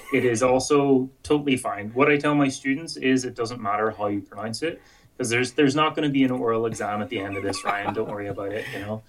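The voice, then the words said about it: Irish accent. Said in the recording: “with my Irish accent, I'm sure I absolutely butcher some Greek and Latin dinosaurs”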